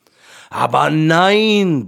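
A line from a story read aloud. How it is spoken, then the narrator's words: Lion roaring. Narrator (German): brüllte der Löwe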